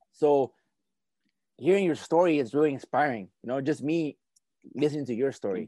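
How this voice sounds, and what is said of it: Noticeable Latino accent. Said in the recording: “I'm a little bit light skinned than most Latinos, but I mean, I have an accent, so that's always a big giveaway”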